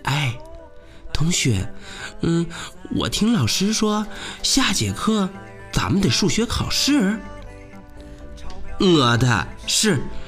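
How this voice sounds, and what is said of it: Quiet, soft-spoken line. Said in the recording (Chinese): “小声”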